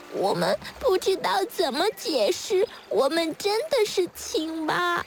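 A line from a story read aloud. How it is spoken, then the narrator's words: Tadpoles, tearful, very quiet. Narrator (Chinese): 小蝌蚪们哭哭啼啼地……然后很小声地说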